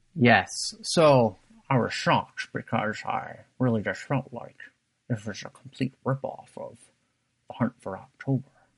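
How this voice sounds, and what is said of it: Poor imitation of another person's voice. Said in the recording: “that's my terrible Sean Connery impersonation.”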